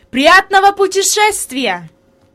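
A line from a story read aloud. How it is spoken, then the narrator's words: Shout. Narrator (Russian): господин Сесман крикнул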